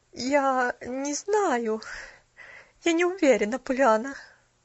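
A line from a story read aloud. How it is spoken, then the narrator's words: Flat, dejected voice. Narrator (Russian): упавшим безразличным голосом произнесла миссис Керю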